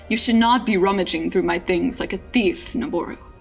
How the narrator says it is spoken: he said, his voice growing dangerous

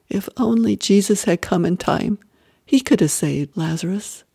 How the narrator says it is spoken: The sisters murmuring sadly

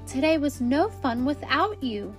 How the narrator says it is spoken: Simba exclaimed

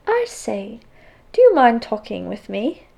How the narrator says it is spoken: said in an English accent

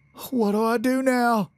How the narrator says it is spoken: Gardner slurred between gasps and sputters

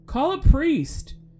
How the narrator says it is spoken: In a full sprint, called out from over his shoulder

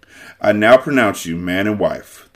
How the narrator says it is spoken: the judge said dryly

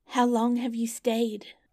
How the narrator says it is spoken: cried she, gaping, rubbing her eyes, and stretching herself as if she had just been waked out of her sleep

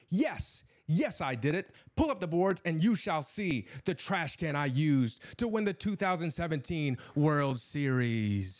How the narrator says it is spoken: cried

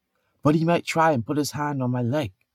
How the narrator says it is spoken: Thor whispered urgently

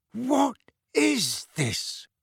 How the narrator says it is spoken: Uncle Vernon said hoarsely

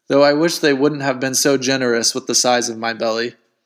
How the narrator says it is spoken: chuckled the Buddha

